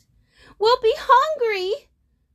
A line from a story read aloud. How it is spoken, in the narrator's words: Osada cried